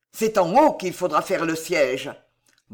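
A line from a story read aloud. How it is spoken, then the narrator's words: Irritated growl. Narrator (French): gronda l'officier, énervé de cette besogne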